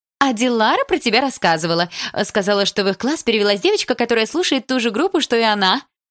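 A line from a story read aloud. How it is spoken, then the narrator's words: Cheerful. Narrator (Russian): весело сказала ее мама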